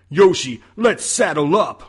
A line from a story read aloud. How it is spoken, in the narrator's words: Luigi shouted